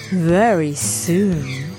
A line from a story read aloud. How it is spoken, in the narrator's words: purred the tigress, who had been having such fun